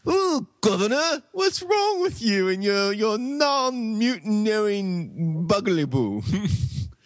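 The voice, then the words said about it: Put-on British accent. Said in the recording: “That's my British imitation.”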